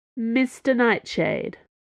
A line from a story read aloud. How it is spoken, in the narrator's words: says the woman